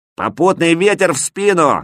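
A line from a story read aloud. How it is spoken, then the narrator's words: Loud bark. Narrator (Russian): гаркнул я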